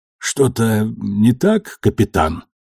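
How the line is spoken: Hoarse question. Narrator (Russian): сипло спросил Кортес

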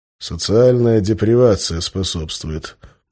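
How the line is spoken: Muttered. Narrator (Russian): буркнул я

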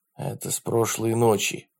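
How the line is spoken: Whisper. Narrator (Russian): прошептал Джад

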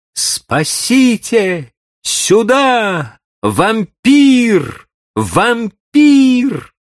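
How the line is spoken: Desperate scream. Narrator (Russian): Сделав последнее усилие, она закричала

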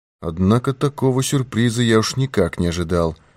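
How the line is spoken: Muttering. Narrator (Russian): пробормотал Пинкертон

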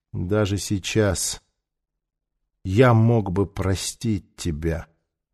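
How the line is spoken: Quiet. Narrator (Russian): тихо сказал Нефер

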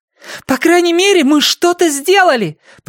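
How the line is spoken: Shouting after them. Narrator (Russian): прокричала она им вслед

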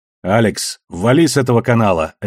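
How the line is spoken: Barked. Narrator (Russian): рявкнула Бобби

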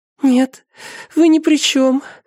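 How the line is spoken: Sobbing answer. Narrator (Russian): ответила она, всхлипывая

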